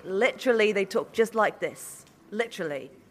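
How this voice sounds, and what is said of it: Unconvincing put-on British accent. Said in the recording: “your British accent ... Need some work on that ... No one in England talks like that ... You sound like a cowboy”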